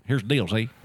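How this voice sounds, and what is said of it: Imitates another person's voice. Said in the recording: “I used to do Russ Perot.”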